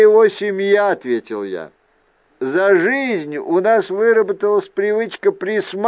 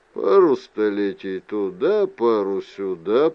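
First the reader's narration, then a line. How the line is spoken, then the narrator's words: Grumbling. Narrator (Russian): проворчал Мендер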